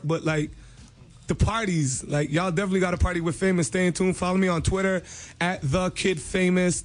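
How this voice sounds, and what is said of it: Hoarse, worn-out voice. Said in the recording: “my voice is like, this is like my third party in a row. I shot two videos, so my voice is hork”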